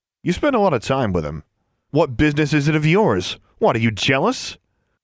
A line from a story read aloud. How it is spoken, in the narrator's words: laughed